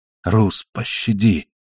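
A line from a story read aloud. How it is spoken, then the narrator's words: Whispered. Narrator (Russian): прошептал немец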